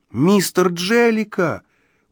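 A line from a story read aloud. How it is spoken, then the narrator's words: Exclaiming. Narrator (Russian): успел воскликнуть я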